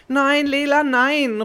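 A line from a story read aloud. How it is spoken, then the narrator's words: Calling out. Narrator (German): ruft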